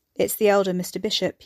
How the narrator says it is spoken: he said

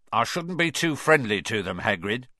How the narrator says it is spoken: said Filch coldly

